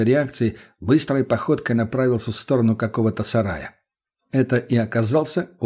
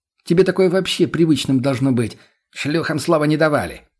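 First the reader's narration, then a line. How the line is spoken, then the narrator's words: Snapping retort. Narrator (Russian): огрызнулся тот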